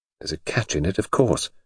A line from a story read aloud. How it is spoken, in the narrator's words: murmured